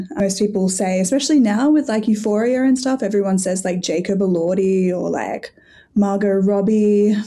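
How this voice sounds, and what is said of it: Australian accent. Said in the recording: “I'm always putting on my best Australian accent for you”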